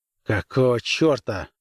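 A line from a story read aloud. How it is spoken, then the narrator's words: Gruff mutter. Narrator (Russian): буркнул он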